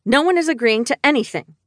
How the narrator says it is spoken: I said sharply

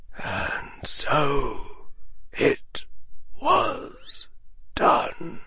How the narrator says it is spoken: Albus Dumbledore said, almost in a whisper

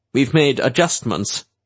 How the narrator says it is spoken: Manx said stiffly

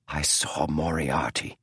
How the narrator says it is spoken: whispered James

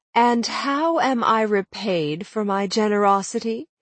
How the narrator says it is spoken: Dorothy went on, her tone suddenly wounded

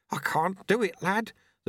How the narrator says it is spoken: the sweeper mumbled

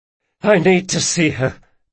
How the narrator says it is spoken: panted Locke

